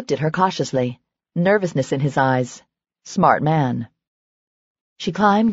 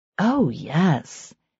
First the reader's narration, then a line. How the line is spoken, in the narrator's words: she purred